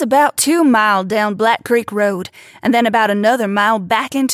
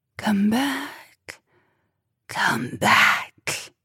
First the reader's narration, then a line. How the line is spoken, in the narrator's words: That cold, hollow, rasping whisper, calling out